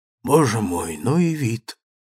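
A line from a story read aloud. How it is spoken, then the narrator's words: Sighing. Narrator (Russian): вздохнула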